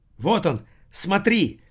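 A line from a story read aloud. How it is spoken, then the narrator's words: Sudden cry. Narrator (Russian): скрикнула Эрика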